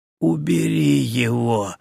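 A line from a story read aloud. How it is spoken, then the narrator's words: Barely audible whisper. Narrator (Russian): едва слышно прошептал Зильберт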